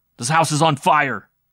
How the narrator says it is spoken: Gascon shouted

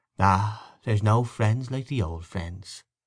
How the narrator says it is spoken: she said

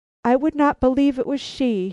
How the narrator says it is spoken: he cried, in total disregard of the presence he was in

